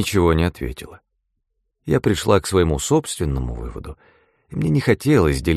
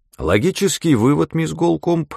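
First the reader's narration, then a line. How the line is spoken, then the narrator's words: Cheerful. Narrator (Russian): сказал граф, весело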